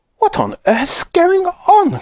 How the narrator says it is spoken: cried Grandma Josephine, waking up suddenly

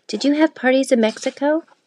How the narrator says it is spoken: Sleepily, Isabel said

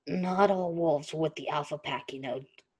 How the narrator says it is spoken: Derek murmured

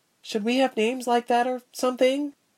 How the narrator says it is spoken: the frizzy-haired girl asked, timidly, aware she was interjecting at an awkward moment

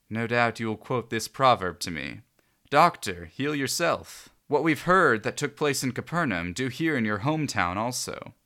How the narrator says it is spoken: He also said

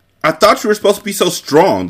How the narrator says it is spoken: the Sicilian shouted

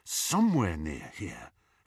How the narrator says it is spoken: Harry muttered to himself

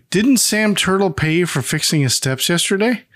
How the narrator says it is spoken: Emmett says, in a sad tone

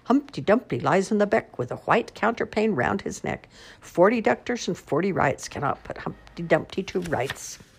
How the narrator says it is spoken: laughing, shouting

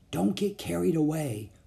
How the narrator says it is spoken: whispered Jack

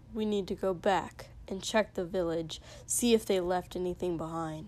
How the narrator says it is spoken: muttered

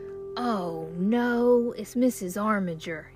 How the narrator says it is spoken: hissed

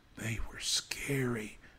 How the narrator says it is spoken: whispered Spencer, shuddering

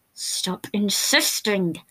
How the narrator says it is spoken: he hissed out

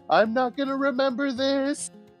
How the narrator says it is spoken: He just shouts

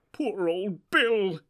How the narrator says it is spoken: he said in a choking voice

